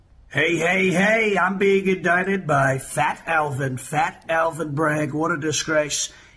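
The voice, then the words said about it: Donald Trump impression. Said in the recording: “Trump impersonation”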